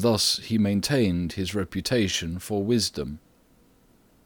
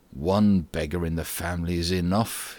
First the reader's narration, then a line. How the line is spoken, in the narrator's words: he used to grumble, when his wife upbraided him